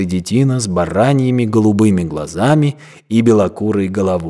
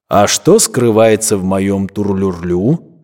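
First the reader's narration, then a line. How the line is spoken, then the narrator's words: Plain question. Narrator (Russian): спросил подошедший флейтист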